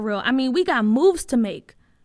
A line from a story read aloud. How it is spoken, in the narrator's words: Bria said excitedly